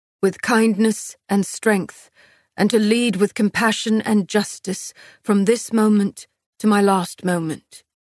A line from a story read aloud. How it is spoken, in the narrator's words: Castile answered, his voice thick